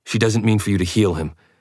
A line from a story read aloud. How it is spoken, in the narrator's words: I translated quickly